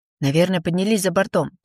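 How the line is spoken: Hurried, young man. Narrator (Russian): торопливо возвращая оборное место, произнес молодой человек

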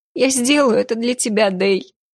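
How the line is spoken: Sob. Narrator (Russian): всхлипнула она

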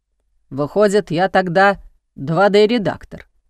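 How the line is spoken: Grumbling reply. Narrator (Russian): ворчал в ответ Владимир Сергеевич

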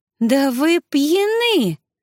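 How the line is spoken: Exclamation. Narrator (Russian): воскликнула она

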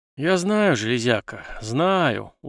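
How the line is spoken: Weary. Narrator (Russian): устало кивнул Артём

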